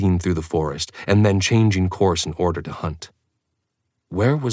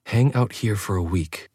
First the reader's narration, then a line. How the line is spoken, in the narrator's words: she said quietly